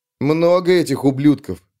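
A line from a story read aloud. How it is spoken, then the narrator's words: Muttered. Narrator (Russian): пробурчал Агарок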